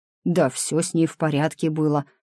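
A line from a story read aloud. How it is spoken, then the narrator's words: Grumbling. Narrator (Russian): проворчал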